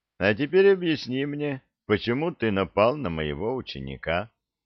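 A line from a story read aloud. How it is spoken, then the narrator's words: Calm, suppressed excitement. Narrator (Russian): спокойно спросил юноша, на самом деле едва сдерживая дрожь возбуждения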